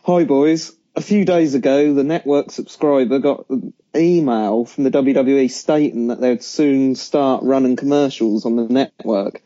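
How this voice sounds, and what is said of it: Suffolk English accent. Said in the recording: “I can't do any sexy, gravelly voice, so you'll have to do it with my Suffolk accent.”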